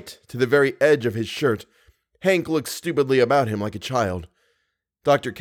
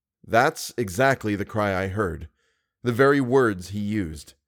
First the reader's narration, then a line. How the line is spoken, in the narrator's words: he said almost calmly